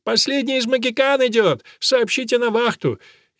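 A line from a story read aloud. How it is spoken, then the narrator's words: Excited shouting. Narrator (Russian): поэт прыгал вокруг и кричал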